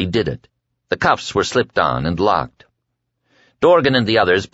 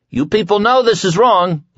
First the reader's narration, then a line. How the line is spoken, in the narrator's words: Larry cried, and his voice, trained by years of singing, rolled out of his chest with surprising strength